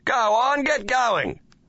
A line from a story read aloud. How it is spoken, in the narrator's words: he shouted